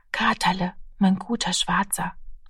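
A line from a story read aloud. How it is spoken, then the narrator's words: Child whispering. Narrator (German): flüsterte das Kind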